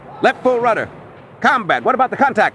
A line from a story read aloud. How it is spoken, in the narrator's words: Morris shouted